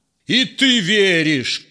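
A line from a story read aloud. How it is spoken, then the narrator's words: Shouting. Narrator (Russian): кричал ему синяя борода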